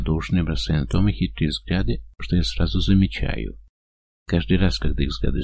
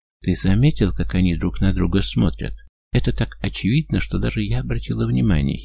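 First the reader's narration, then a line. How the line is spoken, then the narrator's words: Giggling. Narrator (Russian): хихикает она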